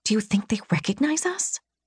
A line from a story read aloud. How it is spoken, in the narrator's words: I whispered to Rain